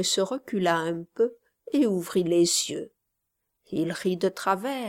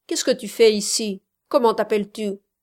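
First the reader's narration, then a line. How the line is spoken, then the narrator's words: Harsher tone. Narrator (French): dit plus durement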